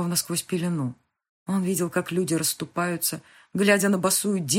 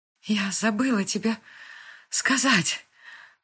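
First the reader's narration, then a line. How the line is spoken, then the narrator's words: Sobbed. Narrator (Russian): всхлипнула она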